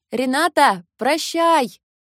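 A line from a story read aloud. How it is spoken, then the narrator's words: Shouted farewell. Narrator (Russian): крикнула Каталина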